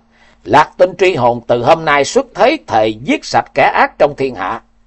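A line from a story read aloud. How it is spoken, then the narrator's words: Loud laughing declaration. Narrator (Vietnamese): Thiếu niên ngửa mặt cười lớn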